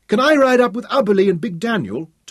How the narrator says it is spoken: Tom pleaded

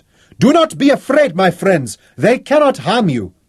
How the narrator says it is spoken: Raleigh shouted

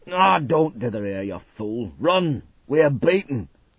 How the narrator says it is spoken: the big bosun growled

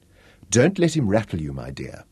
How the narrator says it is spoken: Molly called softly

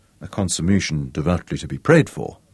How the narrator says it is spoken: murmured

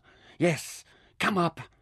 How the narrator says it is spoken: hissed

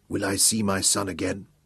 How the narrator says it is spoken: whispered

